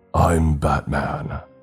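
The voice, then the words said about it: Raspy Batman-style voice. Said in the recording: “attempting to mimic his raspy voice, but ended up in a coughing fit”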